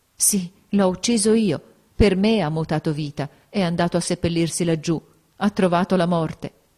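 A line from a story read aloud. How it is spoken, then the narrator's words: Choked voice. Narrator (Italian): con voce strozzata, ella riconobbe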